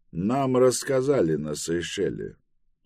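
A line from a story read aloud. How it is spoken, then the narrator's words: Dry reply. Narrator (Russian): сухо ответил Тревис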